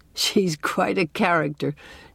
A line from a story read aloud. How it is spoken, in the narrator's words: chuckled Dr